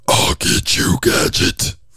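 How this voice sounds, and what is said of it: Very deep low villain voice. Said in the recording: “I can go really down low ... that's my deep, deep voice”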